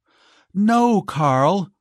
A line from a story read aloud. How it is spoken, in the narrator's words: cried Giselle